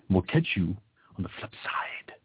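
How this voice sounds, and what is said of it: Bad Christopher Walken impression. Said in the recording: “That was a really bad Christopher Walken impression.”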